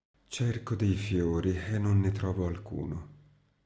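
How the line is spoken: Deep sigh. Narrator (Italian): Mi rispose con un profondo sospiro

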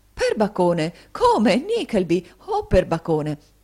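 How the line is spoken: Hearty exclamations. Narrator (Italian): cacciato queste esclamazioni, il signore

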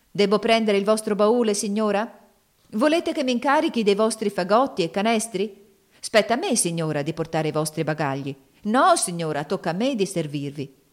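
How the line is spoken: Clamorous cries from all sides. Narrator (Italian): Tali grida assalirono Miss Ofelia da tutte le parti

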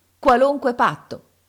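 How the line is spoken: Exasperated group shout. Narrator (Italian): urlammo noi, oramai esasperati dalla voglia di sapere

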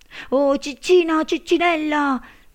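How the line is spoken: Shouting. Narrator (Italian): gridò lui

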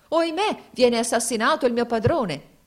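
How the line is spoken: Exclaiming. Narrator (Italian): si esclamò

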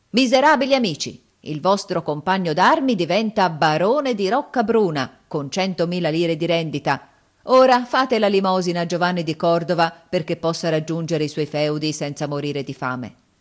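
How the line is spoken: Shout. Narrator (Italian): gridò

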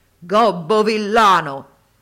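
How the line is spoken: Thundering shout from buffalo. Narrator (Italian): il genio si cangiò in un possente bufalo e sotto cotesta forma gli gridò con voce tuonante

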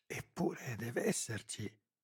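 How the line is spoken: Murmured. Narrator (Italian): mormorava

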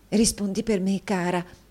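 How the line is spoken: Whisper. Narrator (Italian): bisbigliò l'amica

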